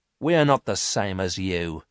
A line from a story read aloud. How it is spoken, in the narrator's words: said Miranda coldly